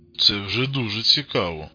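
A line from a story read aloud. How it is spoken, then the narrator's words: Muttering. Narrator (Russian): буркнул Костик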